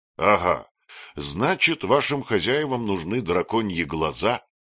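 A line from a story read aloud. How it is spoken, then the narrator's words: Plain. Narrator (Russian): спросил Багров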